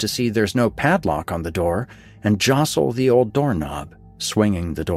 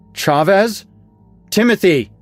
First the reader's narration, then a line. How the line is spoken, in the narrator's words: shouted into the empty room